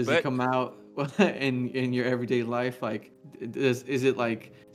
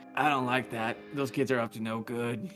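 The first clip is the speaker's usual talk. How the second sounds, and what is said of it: Grumpy old man voice. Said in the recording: “channeling their inner old man ... your old man voice”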